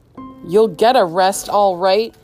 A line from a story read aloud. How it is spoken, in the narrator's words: shouted Mr